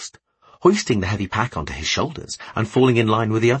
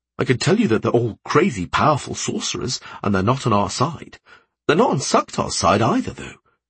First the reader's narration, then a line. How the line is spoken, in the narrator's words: he added quickly